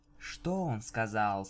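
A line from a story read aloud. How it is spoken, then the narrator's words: Soft question. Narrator (Russian): спросила Винил мягко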